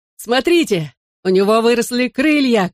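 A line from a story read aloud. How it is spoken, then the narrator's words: Shouting. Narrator (Russian): крикнул я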